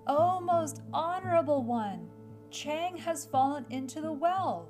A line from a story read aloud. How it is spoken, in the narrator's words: Tiki Tiki Tembo, No Say Rembo, Cherry Berry Richie Pip Perry Pembo raised his voice and cried